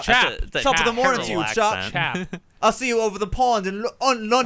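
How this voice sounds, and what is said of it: Attempted British accent, sounds Scottish. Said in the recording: “You're trying a British accent here? ... You sound ... Scottish.”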